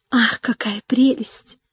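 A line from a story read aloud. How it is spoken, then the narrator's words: Sighing under breath. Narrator (Russian): вздыхала она вполголоса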